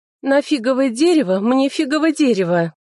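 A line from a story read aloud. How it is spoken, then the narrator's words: Nymph's exclamation. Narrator (Russian): лесная нимфа воскликнула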